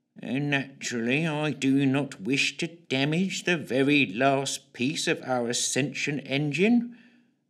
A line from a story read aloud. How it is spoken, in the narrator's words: drawled the grey figure in his usual drab tones